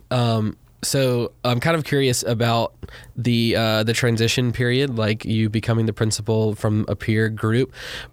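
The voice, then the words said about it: Hoarse, fading voice. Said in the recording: “I'm kind of losing my voice a little bit”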